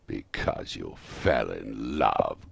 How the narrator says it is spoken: growled Scrooge, as if it were the only thing in the world more ridiculous than a Merry Christmas

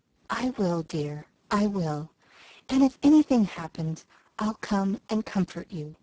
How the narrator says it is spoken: whispered Laurie

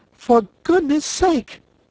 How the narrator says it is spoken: cried Dorothy, amazed

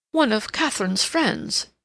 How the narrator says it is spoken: said rather sharply

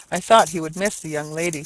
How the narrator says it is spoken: said Grace

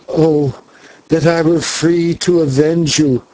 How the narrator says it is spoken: gasped the girl as she strained and tore at the ropes which held her

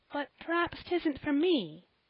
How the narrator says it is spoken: said Polly, timidly

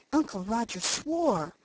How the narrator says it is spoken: said Felicity in a shocked tone

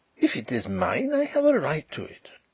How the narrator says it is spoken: he exclaimed

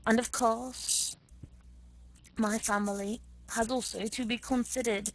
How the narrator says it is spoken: Prince Vasily went on, testily

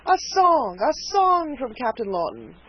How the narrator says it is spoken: cried two or three of the party in a breath

